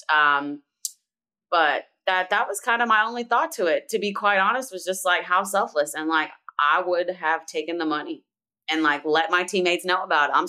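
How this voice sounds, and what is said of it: Philadelphia accent slipping out. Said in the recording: “your Philly accent just came out of you ... She had been trying to tame that Philly ... And the Philly came out.”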